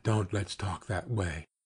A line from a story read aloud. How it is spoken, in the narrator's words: he whispered